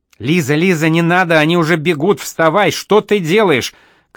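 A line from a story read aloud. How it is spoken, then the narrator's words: Terrified shouting. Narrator (Russian): кричал в ужасе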